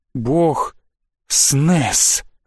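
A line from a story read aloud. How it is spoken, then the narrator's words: Breathy exhale. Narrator (Russian): выдохнул я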